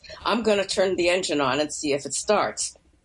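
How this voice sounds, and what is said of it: Commanding general character voice. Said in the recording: “commanding in my best General Gumbo voice.”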